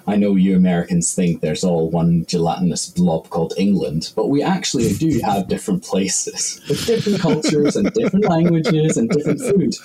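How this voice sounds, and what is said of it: Northern Irish accent. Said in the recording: “my accent is more Northern Irish than it is Scottish.”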